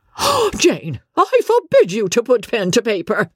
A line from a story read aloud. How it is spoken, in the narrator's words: cried the Countess